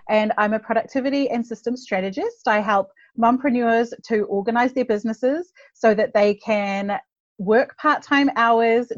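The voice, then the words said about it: New Zealand accent. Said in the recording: “I'm from New Zealand, if you're wondering where the accent is from.”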